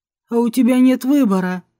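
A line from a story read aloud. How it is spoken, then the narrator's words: Smirking snort. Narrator (Russian): хмыкнул Деевский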